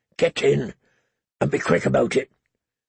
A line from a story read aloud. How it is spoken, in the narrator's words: he muttered